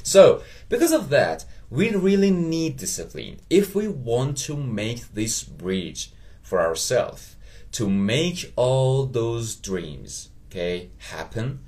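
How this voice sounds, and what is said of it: Persian accent. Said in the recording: “I just talked in a Persian accent.”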